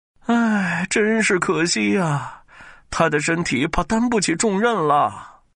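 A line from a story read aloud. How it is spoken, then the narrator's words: Sighing regretfully. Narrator (Chinese): 李林甫一边摇头，一边叹息着说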